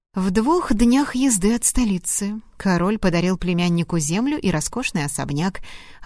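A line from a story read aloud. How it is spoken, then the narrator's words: Plain. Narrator (Russian): ответил Томас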